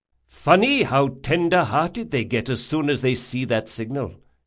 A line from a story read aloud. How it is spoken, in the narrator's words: said Drakasha